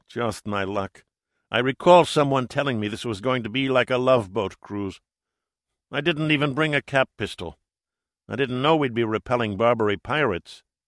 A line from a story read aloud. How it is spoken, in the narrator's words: Zavala grumbled